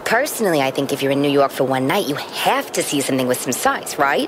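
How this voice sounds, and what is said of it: Staten Island New York accent. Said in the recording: “I love your accent... You can take the girl out of Staten Island.”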